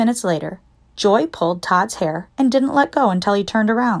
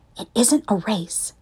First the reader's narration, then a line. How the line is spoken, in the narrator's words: Todd whispered